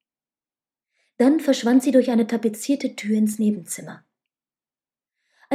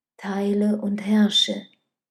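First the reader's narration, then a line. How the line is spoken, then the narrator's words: Whisper. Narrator (German): flüsterte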